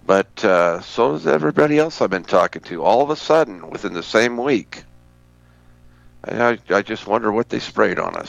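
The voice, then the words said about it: Hoarse voice from a cold. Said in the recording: “My voice is a little hoarse because I developed a head cold, a chest cold.”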